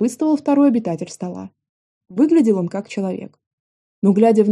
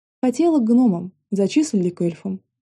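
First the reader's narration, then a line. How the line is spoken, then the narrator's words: Heavy sigh. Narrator (Russian): тяжело вздохнула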